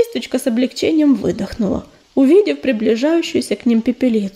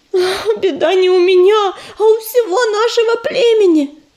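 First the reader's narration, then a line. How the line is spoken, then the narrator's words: Moaned. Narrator (Russian): простонала речная королева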